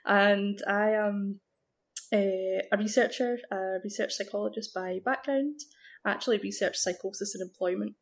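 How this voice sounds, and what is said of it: Scottish Glasgow accent. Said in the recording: “Glasgow, Scotland, in case you couldn't place the accent”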